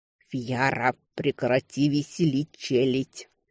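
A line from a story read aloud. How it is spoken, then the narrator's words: Man's hiss. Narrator (Russian): прошипел мужик в мехах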